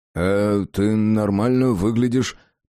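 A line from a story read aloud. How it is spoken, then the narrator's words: Mumbled. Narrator (Russian): промямлил Джек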